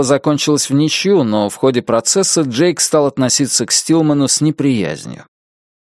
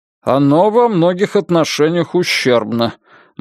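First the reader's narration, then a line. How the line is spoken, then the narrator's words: Gloomy interjection. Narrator (Russian): мрачно вставил Льюис Магуайр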